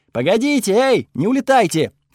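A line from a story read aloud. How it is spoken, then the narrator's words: Shouting. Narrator (Russian): кричала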